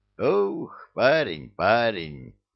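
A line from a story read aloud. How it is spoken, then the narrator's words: Heavy sigh. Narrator (Russian): тяжело вздохнул тот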